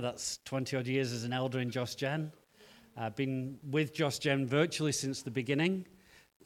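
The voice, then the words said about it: Northern English accent. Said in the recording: “as you can hear from my accent, I wasn't born in Cape Town ... I grew up in the north of England”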